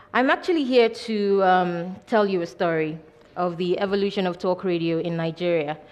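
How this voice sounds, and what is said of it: Voice slightly affected by cold. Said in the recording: “I have a bit of a cold”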